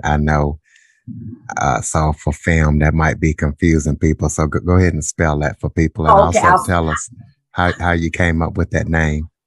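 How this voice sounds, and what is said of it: Southern US country accent. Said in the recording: “With my country accent”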